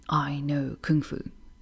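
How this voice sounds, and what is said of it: Bad impression of Neo. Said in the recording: “That was a very bad impression.”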